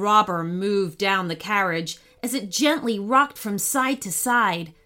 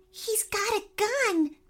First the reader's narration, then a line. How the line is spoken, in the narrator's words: said, as quietly as she dared